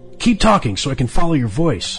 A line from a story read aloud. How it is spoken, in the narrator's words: Max replied